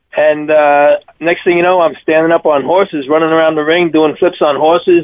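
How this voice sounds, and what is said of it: Deep Long Island accent. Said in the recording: “You are from Long Island. That's a deep Long Island accent.”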